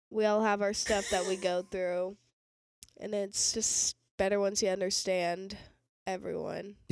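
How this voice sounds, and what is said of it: Low, sick-sounding voice. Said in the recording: “You sound like an alto today. ... Are you sick ... I am sick.”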